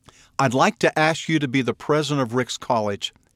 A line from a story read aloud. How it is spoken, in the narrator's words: he said